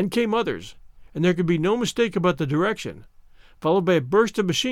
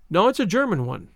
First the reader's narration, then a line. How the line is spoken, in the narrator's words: he said